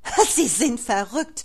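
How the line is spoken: Spiteful laugh. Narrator (German): lachte Frau Brandenburg hämisch auf

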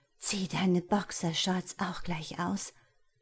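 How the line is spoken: Groaning then speaking. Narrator (German): stöhnte ich wieder und sagte sofort

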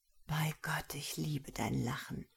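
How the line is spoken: Murmured into her ear. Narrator (German): raunte er ihr ins Ohr

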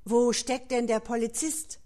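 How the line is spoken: Impatient exclamation. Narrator (German): etwas ungeduldig rief er aus

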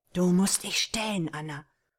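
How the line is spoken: Hoarse murmur. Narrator (German): raunte Rupert ihr heiser zu

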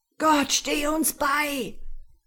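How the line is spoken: Sailor screaming. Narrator (German): schrie einer der Matrosen

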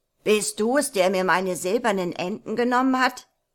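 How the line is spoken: Troll calling out. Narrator (German): rief der Troll

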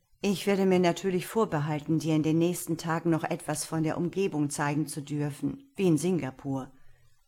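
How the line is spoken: Plain. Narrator (German): sagte er

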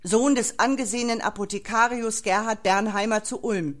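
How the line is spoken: Guard bellowing announcement. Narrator (German): brüllte der Wachmann in den Saal

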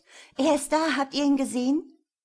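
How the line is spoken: Excited, near-fainting question. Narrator (German): fragt sie aufgeregt, und es macht den Anschein, als würde sie gleich in Ohnmacht fallen

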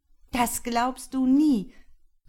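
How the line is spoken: Sister calling out. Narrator (German): rief seine Schwester

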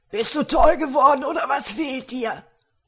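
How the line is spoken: Screaming. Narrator (German): schrie

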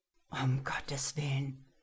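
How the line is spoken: Whisper. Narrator (German): flüsterte

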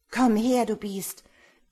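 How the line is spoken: Forced brave shout. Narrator (German): rief ich viel mutiger, als ich mich fühlte

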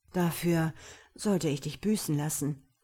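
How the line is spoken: Growled close to ear. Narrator (German): knurrte er an ihrem Ohr

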